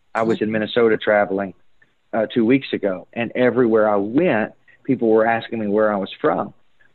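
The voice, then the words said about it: Kentucky accent. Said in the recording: “coming from Kentucky ... my accent stands out so distinctly”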